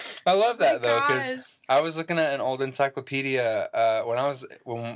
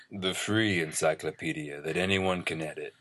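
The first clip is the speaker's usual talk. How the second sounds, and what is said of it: Sensual, breathy seductive voice. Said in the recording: “I'll do it in my sensual voice.”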